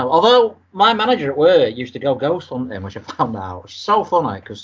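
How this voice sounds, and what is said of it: Usual voice. Nothing is said of it.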